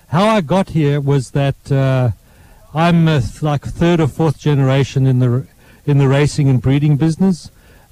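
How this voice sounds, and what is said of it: South African accent. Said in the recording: “you can probably tell from my accent that I grew up in South Africa”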